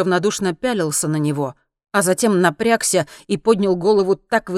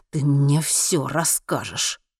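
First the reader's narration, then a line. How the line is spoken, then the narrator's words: Forced through clenched teeth. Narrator (Russian): выдавил Генри сквозь стиснутые зубы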